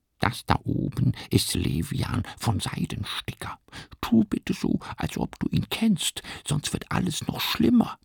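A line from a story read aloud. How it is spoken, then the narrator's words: Whispered. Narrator (German): flüstert Schnabelhofer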